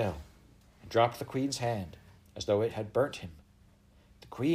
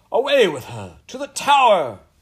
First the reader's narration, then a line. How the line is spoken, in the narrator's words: cried the queen